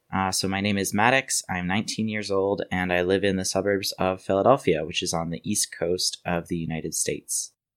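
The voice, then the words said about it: American accent. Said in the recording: “a slightly different accent to normal ... is from Pennsylvania in the States”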